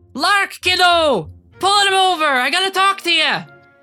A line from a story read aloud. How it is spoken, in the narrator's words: someone shout